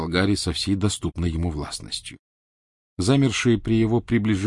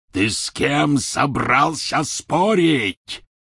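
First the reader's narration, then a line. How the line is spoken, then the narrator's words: Roar. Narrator (Russian): взревел Гарри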